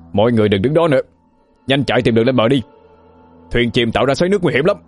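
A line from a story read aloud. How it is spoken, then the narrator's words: Loud shout. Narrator (Vietnamese): Lý Quỳnh quát lớn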